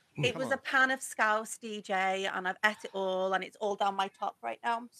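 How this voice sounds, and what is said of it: Speaks with a noticeable accent. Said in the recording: “You gotta stop taking the mick out my accent”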